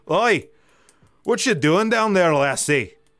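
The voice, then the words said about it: Put-on Scottish accent. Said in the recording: “let me get in my Scottish accent here”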